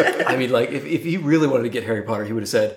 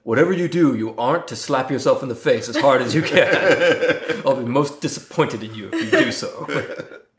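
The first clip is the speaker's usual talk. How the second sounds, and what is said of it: Imitates another person's voice. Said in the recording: “That was a really good Alan Rickman impression.”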